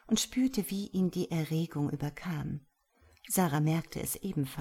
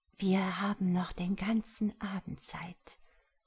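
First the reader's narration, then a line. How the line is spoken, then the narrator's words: Breathy whisper. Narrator (German): hauchte sie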